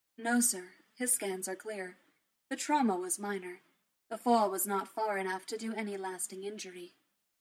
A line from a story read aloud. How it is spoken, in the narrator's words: Jarvis said